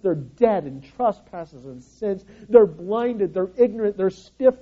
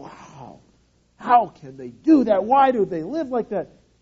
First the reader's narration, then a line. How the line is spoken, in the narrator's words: with this snarl of holiness and go